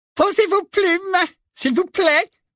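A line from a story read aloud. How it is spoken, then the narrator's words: Squeaky professor. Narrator (French): couina le professeur Flitwick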